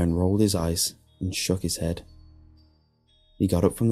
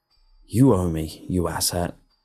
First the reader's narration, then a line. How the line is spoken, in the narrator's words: growled